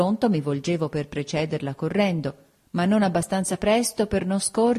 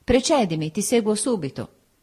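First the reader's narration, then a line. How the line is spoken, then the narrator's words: Firm solid voice. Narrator (Italian): Mi diceva con la sua voce soda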